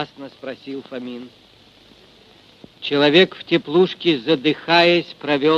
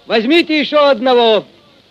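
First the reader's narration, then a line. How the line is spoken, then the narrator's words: Cheerful shout. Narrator (Russian): кто-то весело крикнул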